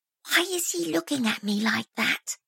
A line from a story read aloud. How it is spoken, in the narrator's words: she said in a stage whisper that Roy could clearly hear